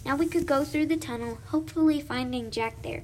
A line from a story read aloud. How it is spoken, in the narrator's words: Chloe yelled happily